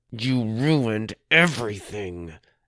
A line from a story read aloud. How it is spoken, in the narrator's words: Amy said through her teeth